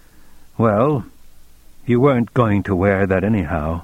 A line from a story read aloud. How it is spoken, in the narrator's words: Very calmly, said